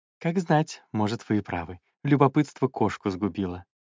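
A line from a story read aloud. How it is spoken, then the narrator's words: Soft, sugary young man. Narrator (Russian): еще более мягко и проникновенно сказал юноша, расплывшись в приторной улыбке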